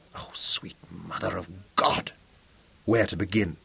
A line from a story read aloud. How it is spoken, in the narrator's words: Robin whispered